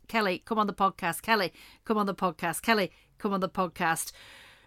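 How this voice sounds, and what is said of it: Poor put-on Scottish accent. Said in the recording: “That's my impression. ... Is that your Scottish? That was worse than mine. ... That was abysmal. ... Kelly, you don't sound like that at all.”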